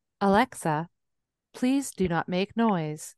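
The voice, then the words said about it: Imitates a voice assistant's voice. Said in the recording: “Say that in your Alexa voice. ... Oh God, that's so freaky when you do that.”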